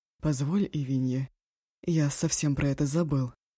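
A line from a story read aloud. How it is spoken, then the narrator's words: Hoarse. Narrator (Russian): хрипло сказал Мара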